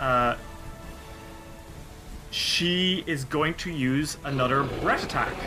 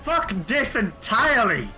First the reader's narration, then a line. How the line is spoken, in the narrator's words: Zerifu the Cunning, and she screams